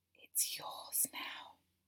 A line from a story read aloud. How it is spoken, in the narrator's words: you whispered into my ear breathlessly